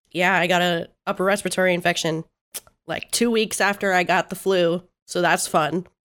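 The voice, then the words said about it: Rough, sick-sounding voice. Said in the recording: “as you can hear in my voice, because it sounds a little rough right now ... this cough that's really fucking annoying and fucking with my voice”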